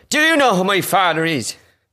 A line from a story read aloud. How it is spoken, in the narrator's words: Shouting out